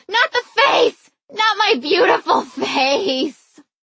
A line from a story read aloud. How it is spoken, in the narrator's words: I started screaming